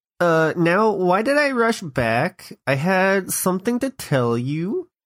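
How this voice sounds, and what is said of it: Valley Girl voice. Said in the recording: “Valley Girl voice. ... God, that's hard to do.”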